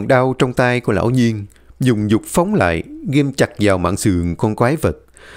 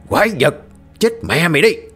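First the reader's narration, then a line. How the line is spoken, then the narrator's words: Roar. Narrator (Vietnamese): Lão Nhiên gầm lên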